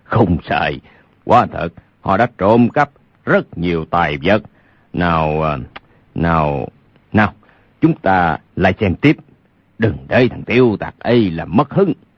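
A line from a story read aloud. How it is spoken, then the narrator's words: Loud chuckling speech. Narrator (Vietnamese): Lục Trang Chủ khà khà cười lớn nói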